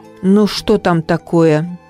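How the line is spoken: Irritated question. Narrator (Russian): спросил сэр Генри раздраженно

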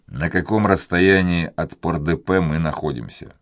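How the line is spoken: Plain. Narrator (Russian): спросил первый

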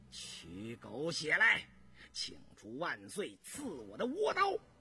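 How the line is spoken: Gritted teeth, sinister laugh. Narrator (Chinese): 印四 咬牙狞笑着

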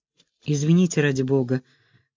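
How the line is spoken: Mumbling. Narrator (Russian): промямлил я

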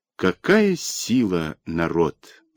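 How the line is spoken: Thoughtful. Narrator (Russian): задумчиво говорил Дмитру Тур

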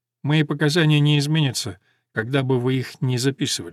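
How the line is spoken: Plain. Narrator (Russian): сказал Ламонт

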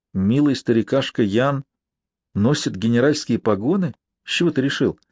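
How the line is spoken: Hesitant, uncertain question. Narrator (Russian): После некоторого замешательства неуверенно переспросил

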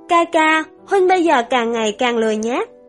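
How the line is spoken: Pained sigh. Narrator (Vietnamese): trong lòng lại thấy đau đớn, hạ tầm mắt thở dài

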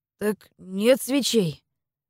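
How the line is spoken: Confused reply. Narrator (Russian): Растерянно ответил помощник мастера

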